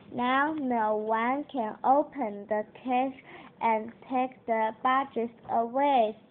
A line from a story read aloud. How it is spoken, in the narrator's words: said Adam